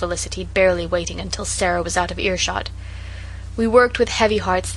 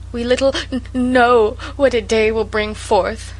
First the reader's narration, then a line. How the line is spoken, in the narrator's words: sobbed Sarah